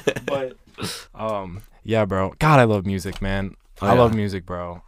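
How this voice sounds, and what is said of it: Rough, worn-out voice. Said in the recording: “I've been smoking all day too... like shot. That's why I cough.”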